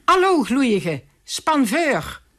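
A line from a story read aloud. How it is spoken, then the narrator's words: Desperate angry carter shouting. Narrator (Dutch): In zijn radeloosheid de voerman riep in zijn drift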